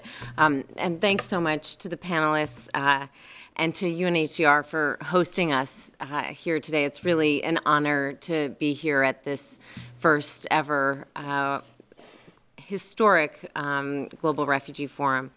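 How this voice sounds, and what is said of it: Hoarse, strained voice. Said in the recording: “I'm losing my voice a bit”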